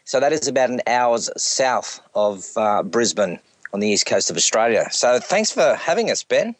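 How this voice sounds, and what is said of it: Heavy Australian accent. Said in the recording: “my heavy Australian accent”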